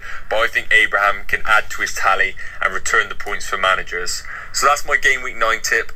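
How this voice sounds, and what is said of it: Regional British accent. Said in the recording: “There's an accent there, isn't there? ... It's a good accent ... it's very engaging ... the lack of regional accents on this podcast”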